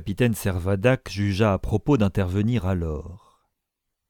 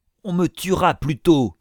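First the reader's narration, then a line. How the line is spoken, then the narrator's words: Howled. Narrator (French): hurla Isaac Hakkabut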